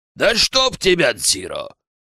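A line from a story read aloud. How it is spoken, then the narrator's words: Snapping retort. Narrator (Russian): Огрызнулся Сиро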